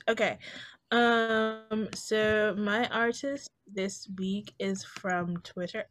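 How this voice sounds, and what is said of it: Briefly slips into an accent. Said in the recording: “Why did that accent just come over me? ... I started sounding like this.”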